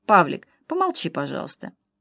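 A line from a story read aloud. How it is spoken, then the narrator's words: Calm. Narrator (Russian): которому она всегда могла спокойно сказать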